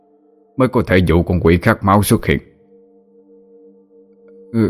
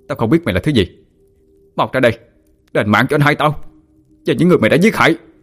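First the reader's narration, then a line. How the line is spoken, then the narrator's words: Shout. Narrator (Vietnamese): hét lên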